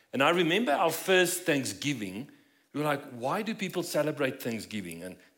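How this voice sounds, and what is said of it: South African accent. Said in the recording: “As you might notice from my accent, we're not from here... from South Africa”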